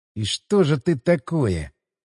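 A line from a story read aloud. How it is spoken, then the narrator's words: Muttered. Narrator (Russian): пробормотал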